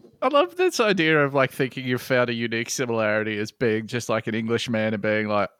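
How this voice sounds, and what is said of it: Usual voice. Nothing is said of it.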